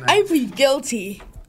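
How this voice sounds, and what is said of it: Projected, commanding radio voice. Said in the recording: “This is his radio voice he's giving you. ... He's giving you a commanding voice. ... He's giving you the radio voice now. Go ahead now. Project.”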